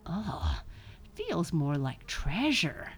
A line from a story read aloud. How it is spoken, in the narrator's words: grunted Buster